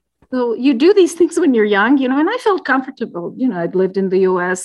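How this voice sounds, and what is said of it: Speaks with an accent. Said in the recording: “I have an accent”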